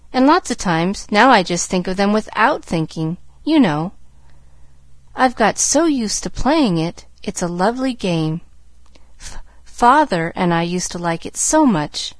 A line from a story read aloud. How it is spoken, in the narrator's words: she faltered